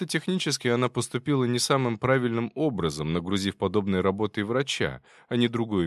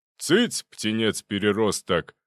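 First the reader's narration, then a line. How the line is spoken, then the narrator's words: Barked shout. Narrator (Russian): гаркнул на него Зубов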